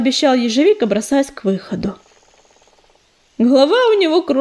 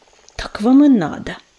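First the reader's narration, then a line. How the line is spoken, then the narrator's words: Hissing. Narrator (Russian): прошипел Ежевика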